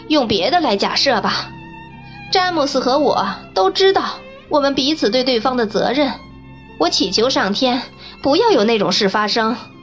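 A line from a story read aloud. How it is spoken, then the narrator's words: Kindly laughing interjection. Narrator (Chinese): 斯蒂夫斯夫人和蔼地笑着插嘴说道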